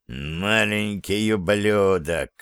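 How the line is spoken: Through gritted teeth. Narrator (Russian): процедил Курце

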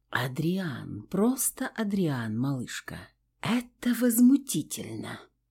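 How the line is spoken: Whispered. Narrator (Russian): Произнесла шепотом

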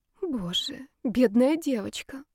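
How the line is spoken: Sigh. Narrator (Russian): вздохнула Маргарита Сергеевна

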